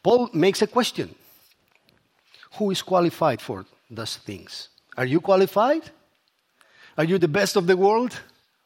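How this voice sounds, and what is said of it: Strong accent. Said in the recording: “The only one strong thing I have is my accent.”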